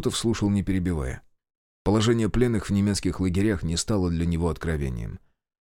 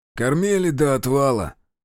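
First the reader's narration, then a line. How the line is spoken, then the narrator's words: Hoarse. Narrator (Russian): хрипло продолжил майор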